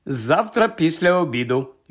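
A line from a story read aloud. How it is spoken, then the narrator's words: Answered joyfully. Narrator (Ukrainian): відповів радісно Хаул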